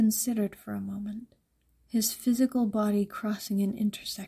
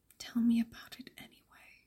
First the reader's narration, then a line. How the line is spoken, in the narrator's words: murmured, smiling against her glass